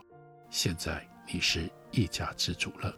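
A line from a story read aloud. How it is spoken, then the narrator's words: Low voice. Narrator (Chinese): 曹日昌低声对他说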